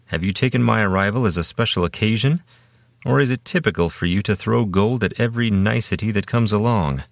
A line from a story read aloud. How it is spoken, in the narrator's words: Soria laughed